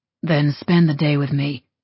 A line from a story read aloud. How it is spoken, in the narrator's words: Cyrus said, his voice a rumble that called to mind impending disasters, earthquakes, and landslides